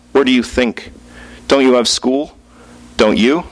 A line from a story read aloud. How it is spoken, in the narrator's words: My brother sighed